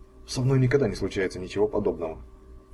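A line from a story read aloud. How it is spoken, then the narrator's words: Annoyed grumble. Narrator (Russian): с досадой проворчал Фарли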